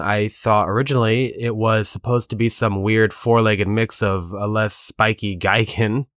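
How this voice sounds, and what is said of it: Hoarse, losing voice. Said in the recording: “starting to lose my voice near the end there ... I started to get a frog in my throat”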